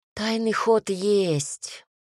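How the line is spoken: Sighing. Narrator (Russian): вздохнул Кирьян

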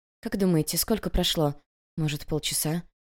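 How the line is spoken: Quiet speaking. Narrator (Russian): Иногда кто-то тихонько говорил

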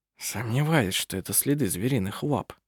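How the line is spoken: Whisper. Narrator (Russian): прошептал пастор

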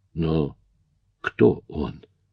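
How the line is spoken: Shocked whisper. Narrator (Russian): потрясенно прошептал я

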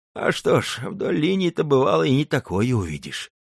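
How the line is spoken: Sighing old man. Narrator (Russian): вздохнул старый казак

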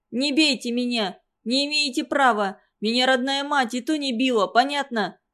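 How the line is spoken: Ringing shout. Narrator (Russian): Звонко выкрикнул Ренат

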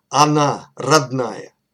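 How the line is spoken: Solemn, smiling declaration. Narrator (Russian): Домодедов широко улыбнувшись, торжественно заявил

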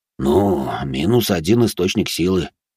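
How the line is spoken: Father sighing. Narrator (Russian): вздохнул отец

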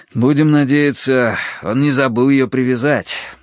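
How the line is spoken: Sighing. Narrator (Russian): вздохнул я

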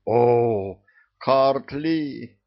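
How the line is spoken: Ecstatic howl. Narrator (Russian): восторженно взвыл посол

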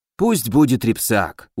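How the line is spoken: Weary sigh. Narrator (Russian): устало вздохнул призрак

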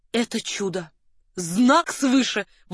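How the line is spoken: Count's exclamation. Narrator (Russian): воскликнул граф

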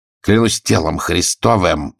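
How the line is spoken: Growled. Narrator (Russian): зарычал он

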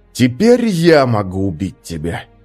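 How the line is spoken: Hissed. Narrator (Russian): прошипел он

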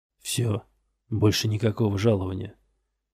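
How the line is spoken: Quiet. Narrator (Russian): негромко произнес он

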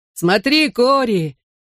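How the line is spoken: Shouted. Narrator (Russian): крикнул мне Бен

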